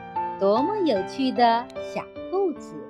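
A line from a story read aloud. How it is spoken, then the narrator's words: Amused, laughing. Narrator (Chinese): 小熊笑着说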